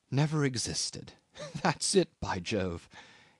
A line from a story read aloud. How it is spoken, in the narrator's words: murmured to himself